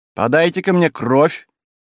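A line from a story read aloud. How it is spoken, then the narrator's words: Shouting. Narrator (Russian): крикнул Киню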